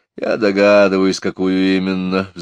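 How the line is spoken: Sighing. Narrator (Russian): вздохнул я

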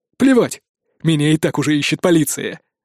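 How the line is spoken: Barked. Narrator (Russian): рявкнул он

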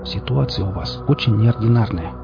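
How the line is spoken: Quiet, confiding. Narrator (Russian): также тихо разоткровенничался Рыжий

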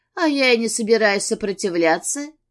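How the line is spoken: Giggling. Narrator (Russian): хихикнула Герати

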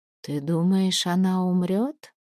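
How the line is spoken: Very soft whisper. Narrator (Russian): совсем тихо прошептала она

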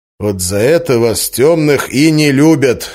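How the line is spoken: Plain. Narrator (Russian): сказал я

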